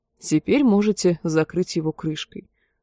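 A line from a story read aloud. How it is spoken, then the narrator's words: Plain. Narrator (Russian): сказал он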